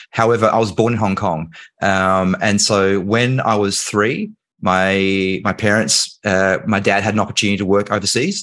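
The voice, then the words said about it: Australian accent. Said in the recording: “I obviously live in Australia. That's why I have this accent.”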